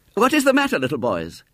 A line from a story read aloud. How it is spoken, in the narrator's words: said sharply